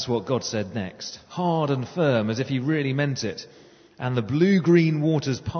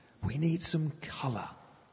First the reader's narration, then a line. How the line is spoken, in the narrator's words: God whispered, as if he were thinking out loud